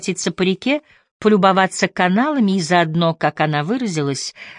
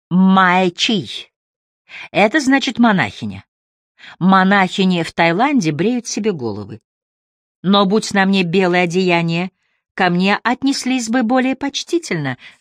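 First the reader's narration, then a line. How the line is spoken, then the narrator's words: Laughing. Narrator (Russian): засмеялась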